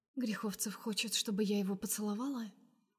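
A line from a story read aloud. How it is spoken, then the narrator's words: Quiet smirk. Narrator (Russian): усмехается Настя тихо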